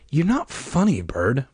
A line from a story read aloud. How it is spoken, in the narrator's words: Michael muttered